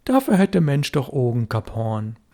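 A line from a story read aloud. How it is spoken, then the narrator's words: Said calmly. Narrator (German): Aber Störtebecker sagte ruhig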